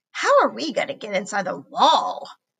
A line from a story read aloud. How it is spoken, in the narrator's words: Zoe moaned